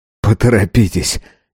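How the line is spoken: Hoarse laugh. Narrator (Russian): Юнс хрипло засмеялся

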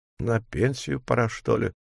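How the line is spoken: Sigh. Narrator (Russian): вздохнул он

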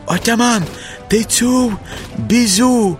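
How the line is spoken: Shout. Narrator (Ukrainian): крикнув Ходя

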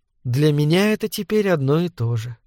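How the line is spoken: Quiet reply. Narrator (Russian): тихо ответила миссис Долан

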